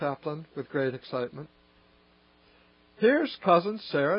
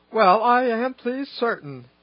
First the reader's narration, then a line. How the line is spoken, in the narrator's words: exclaimed Mrs